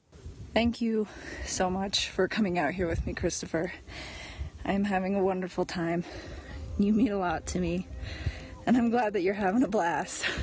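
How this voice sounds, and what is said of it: Breathless, out-of-breath speech. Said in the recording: “I am so out of breath.”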